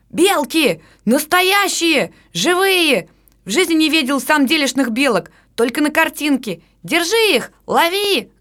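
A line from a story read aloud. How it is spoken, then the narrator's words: Boys yelling together. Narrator (Russian): завопили мальчики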